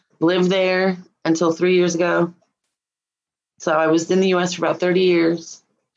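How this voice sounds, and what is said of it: New Zealand accent. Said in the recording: “You got an accent. ... I'm from New Zealand.”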